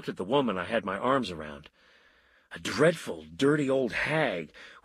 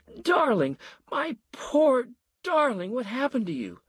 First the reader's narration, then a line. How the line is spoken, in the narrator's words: Marion wailed